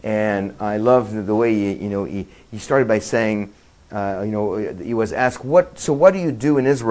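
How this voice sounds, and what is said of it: Usual voice. Nothing is said of it.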